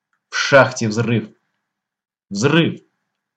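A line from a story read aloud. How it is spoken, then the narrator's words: Breathless boy's shout. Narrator (Russian): соседский мальчуган Алёха крикнул, запыхавшись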